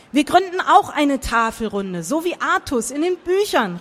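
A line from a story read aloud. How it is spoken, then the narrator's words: Calling out. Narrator (German): rief Christopher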